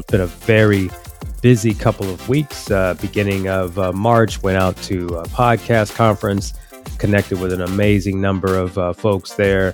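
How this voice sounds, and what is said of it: Stuffy, congested head-cold voice. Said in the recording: “forgive my voice today. I am battling a little bit of a stuffy head cold.”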